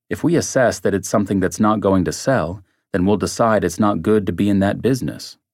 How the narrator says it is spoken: Brown said

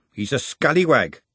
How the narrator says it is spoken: she said firmly

